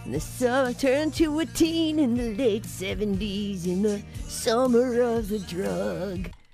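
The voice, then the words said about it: Imitates another person's voice. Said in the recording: “That's my Dave Perner impersonation.”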